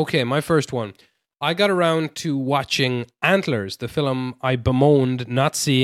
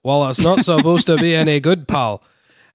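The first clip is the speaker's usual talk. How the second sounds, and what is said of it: Poor put-on Scottish accent. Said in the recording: “Was that not a good Scottish accent? ... You created your own accent that doesn't exist anywhere.”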